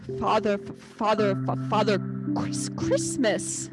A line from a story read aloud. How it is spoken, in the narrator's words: stammered the fox